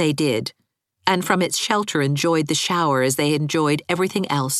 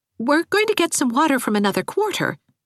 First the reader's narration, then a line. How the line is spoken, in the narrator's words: said Anne rather anxiously